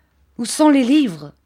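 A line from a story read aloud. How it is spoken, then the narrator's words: Furious cry. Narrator (French): s'écria-t-il avec une effroyable expression de rage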